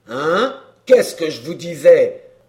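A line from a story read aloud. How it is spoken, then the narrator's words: Exclaimed. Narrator (French): s'écria Courapier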